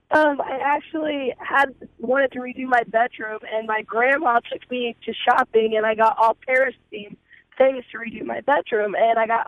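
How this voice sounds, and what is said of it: Hoarse, nearly lost voice. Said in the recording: “I just lost my voice.”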